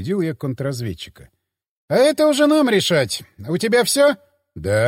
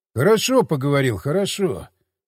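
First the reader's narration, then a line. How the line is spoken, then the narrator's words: Sighing. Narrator (Russian): вздохнул я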